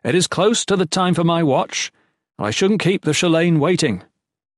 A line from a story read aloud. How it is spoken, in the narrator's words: Jen ended loudly